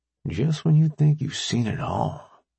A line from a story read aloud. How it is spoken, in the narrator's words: Rambo said under her breath